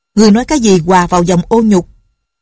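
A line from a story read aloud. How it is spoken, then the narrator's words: Angry loud question. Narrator (Vietnamese): Nghi Hòa tức giận lớn tiếng hỏi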